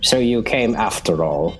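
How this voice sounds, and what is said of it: Imitates a film character's voice. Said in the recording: “It's a really good impression of Robert's voice. That's good.”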